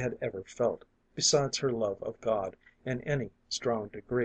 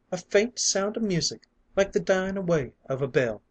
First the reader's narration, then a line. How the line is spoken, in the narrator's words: cried